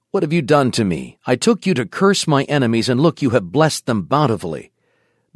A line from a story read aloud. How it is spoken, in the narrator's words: he angrily exclaimed